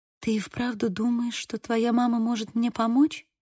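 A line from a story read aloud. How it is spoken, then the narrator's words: Quiet question. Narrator (Russian): тихо спросила Сьюзи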